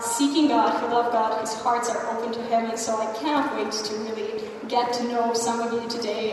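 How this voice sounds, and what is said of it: Slight American twang. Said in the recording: “my American twang”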